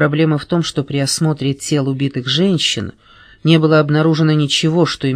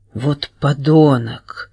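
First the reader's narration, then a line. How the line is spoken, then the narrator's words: Exclaimed. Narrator (Russian): воскликнула я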